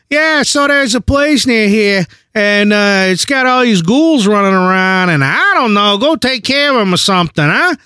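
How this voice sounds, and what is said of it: Poor put-on Boston accent. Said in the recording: “That's in no way a good Boston accent”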